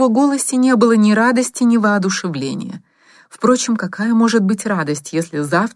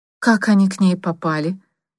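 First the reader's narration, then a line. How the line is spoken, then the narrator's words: Dejected voice. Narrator (Russian): упавшим голосом спросил Михаил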